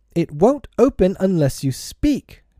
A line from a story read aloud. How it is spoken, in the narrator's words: Peter cried